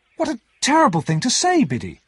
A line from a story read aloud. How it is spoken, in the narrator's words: I cried